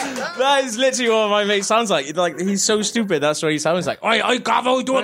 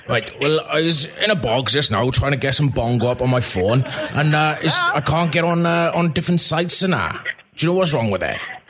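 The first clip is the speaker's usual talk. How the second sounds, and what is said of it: Welsh accent imitating a friend. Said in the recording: “You're like a Welsh Papa Lazaro ... this is me doing an imitation of my mate. That's what he sounds like.”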